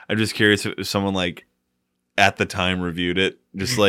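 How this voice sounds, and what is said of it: Usual voice. Nothing is said of it.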